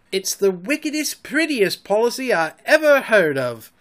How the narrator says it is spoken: he cried

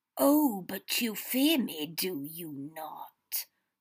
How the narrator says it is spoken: Voldemort purred

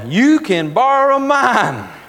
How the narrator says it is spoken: Sister Mary White hollered at me

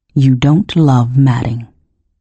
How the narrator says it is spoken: said, still in a terrible soft voice

